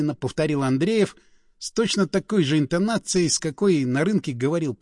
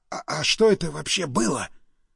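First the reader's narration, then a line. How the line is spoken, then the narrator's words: Stunned whisper. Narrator (Russian): прошептал ошарашенный Стас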